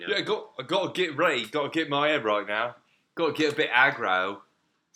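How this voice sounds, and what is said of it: Put-on British London accent. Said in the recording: “See, I'm getting back into my British. ... That was perfect brilliant. ... Accent. ... Brilliant. ... London.”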